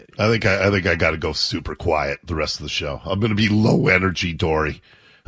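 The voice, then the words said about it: Raspy, quiet voice. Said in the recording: “my voice isn't quite as raspy.”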